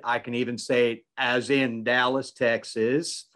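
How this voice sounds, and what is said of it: Put-on Texas accent. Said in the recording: “for y'all who just need a little bit of that Texas accent.”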